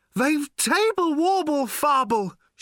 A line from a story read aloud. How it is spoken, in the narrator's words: shouted Slarty Bartfast again